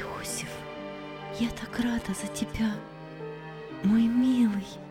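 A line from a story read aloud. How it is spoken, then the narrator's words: Mother's whisper. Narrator (Russian): шепнула ему мать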